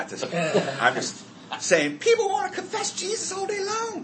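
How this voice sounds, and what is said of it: Usual voice. Nothing is said of it.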